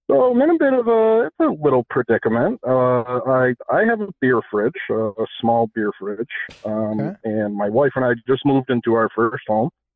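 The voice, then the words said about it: American accent. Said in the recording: “You sound American.”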